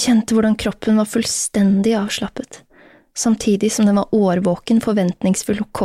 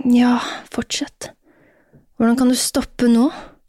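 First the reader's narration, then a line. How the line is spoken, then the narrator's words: Groan. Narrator (Norwegian): stønnet hun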